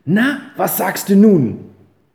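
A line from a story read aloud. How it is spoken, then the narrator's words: Called out. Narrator (German): rief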